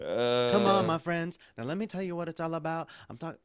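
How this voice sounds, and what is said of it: Singing in a European accent. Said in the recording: “Singing with that accent? What's that accent? ... it's European. That's your European. ... Doing a perfect impression.”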